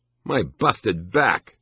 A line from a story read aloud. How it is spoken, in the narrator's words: He exclaimed, horrified